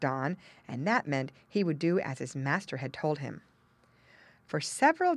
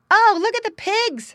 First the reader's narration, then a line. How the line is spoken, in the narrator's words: someone cried